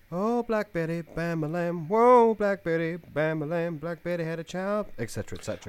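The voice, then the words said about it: Singing, slipping into southern accent. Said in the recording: “your rendition cracked into a southern accent about halfway through”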